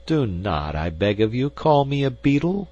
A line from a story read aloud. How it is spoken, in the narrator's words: exclaimed our hero, rather peevishly